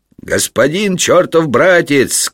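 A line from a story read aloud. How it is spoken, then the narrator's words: Several voices shouting. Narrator (Russian): кричали брату Жану другие ябедники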